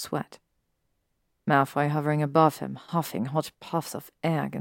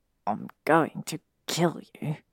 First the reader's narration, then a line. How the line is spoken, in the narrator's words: he muttered